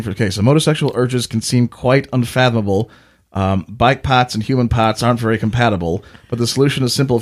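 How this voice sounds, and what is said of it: Attempted Boston accent. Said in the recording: “Motosexual Poetry with a Boston Accent ... you're the one who insisted on accents ... Boston's not one of my go-tos ... Went straight back to Australia”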